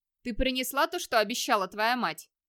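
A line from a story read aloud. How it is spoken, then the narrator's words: Stern question. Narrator (Russian): строго спросил Вигмар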